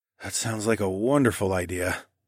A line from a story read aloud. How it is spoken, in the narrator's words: I muttered